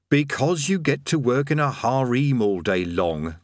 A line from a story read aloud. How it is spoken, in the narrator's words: they chorused slowly